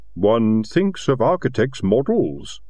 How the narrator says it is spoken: rumbled Silver

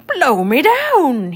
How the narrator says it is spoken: he cried

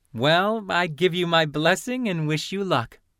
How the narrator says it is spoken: Lynn said, laughing

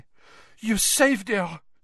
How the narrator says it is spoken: she said breathlessly

